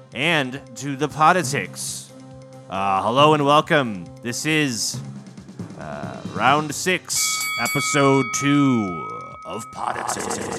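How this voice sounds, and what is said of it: Voice suddenly turns rough. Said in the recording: “my voice got very rough there”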